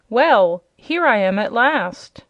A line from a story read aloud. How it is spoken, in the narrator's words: he cried in a merry voice